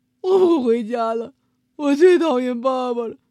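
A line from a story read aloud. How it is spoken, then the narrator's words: Crying child. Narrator (Chinese): 小猪一边哭一边说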